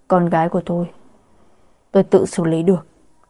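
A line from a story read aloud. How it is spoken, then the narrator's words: Fading, mumbling. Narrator (Vietnamese): Lạc Mộc Thiên cũng mất đi ý thức, lẩm bẩm nói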